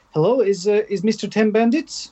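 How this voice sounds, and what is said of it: Put-on Eastern European accent. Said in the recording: “sounded some sort of Eastern European ... the accent at the end ... that was probably quite bad”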